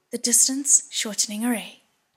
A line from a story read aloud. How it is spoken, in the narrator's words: Shilin cried